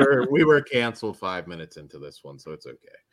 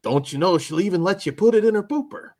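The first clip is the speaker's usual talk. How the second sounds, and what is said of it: Put-on Canadian, Midwest-sounding accent. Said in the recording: “I picture it in a Canadian accent... You got to do it in the Canadian accent... Maybe a little more Midwest there... Fargo-y.”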